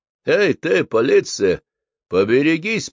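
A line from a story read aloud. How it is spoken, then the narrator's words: Booming hoarse voice. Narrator (Russian): прогремел чей-то хриплый голос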